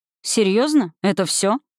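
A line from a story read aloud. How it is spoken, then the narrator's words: Dry. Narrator (Russian): сухо произнес мой защитник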